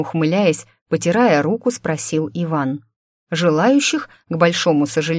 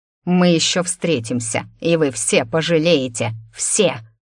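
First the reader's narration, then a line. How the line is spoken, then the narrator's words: Hissed. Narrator (Russian): Размахивая руками, зашипел дорого одетый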